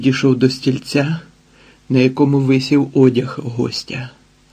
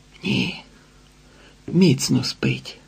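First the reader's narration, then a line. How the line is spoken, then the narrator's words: Whispered reply. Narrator (Ukrainian): відшепотів сеньор Санчес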